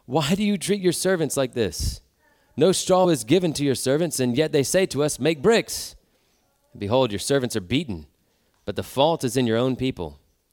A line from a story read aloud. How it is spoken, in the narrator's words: cried to Pharaoh